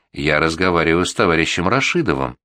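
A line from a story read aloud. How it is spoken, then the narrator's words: Calm, pointedly composed. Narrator (Russian): Я спокойно, подчеркнуто невозмутимо ответил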